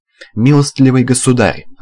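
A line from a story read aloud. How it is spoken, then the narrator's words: Yelling. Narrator (Russian): орал Панкрашин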